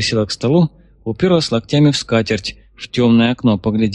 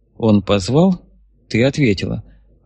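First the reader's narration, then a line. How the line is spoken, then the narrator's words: Even, flat voice. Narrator (Russian): ровным голосом констатировала бывший замкомэск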